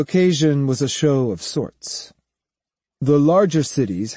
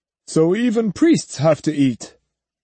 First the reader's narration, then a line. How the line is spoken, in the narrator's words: laughed